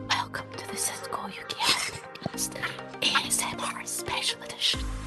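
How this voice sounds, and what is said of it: Whispered, ASMR-style delivery. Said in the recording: “Whisper it.”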